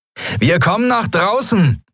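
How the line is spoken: Calling out. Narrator (German): rief Sephiron den Jadi-Piraten zu

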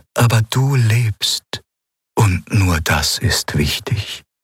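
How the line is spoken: Sad reply. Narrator (German): antwortete es traurig

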